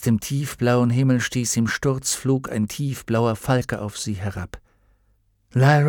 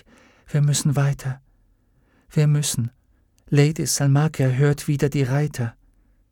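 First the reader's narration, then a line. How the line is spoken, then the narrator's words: Said anxiously. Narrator (German): sagte Lyra ängstlich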